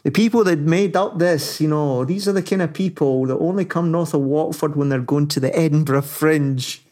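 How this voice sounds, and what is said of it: Attempted Northern English accent. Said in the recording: “I can't do it justice in the Northern accent”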